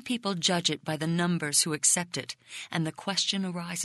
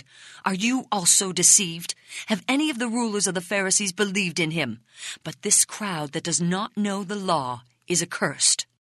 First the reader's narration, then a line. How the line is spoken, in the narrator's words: Now enraged, they cried